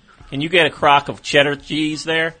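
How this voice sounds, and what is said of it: Put-on Southern US accent. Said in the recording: “Why do you have a southern accent all of a sudden? ... has a southern accent.”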